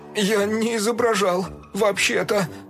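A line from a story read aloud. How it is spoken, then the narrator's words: Mumbled. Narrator (Russian): промямлил Фил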